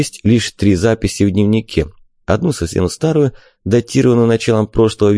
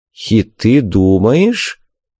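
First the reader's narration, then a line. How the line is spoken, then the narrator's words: Doubtful drawl. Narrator (Russian): недоверчиво протянул Вик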